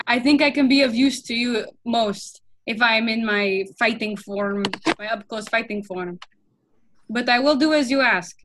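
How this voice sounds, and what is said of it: Orcish character accent. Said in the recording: “That was another character. ... I slipped back in with the orcish accent”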